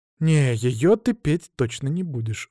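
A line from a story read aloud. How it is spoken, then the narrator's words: Sighed. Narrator (Russian): вздохнул я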